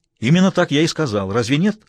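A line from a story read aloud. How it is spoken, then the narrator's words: Snapped back. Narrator (Russian): огрызнулся Смайлову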